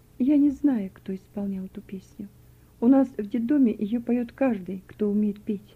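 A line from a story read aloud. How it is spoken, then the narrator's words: Quiet answer. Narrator (Russian): Вера тихо ответила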